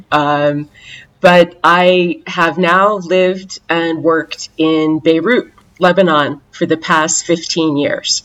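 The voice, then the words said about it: American accent. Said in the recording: “I'm an American, my accent too”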